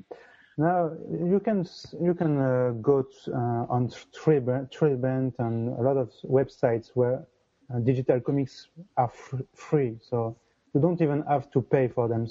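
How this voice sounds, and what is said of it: French accent. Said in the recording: “our bad French accent”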